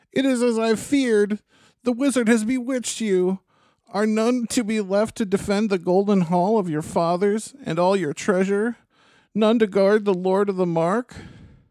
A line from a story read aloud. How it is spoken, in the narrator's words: cried Wormtongue